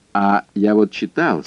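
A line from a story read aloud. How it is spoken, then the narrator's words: Plain. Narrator (Russian): сказал Симоне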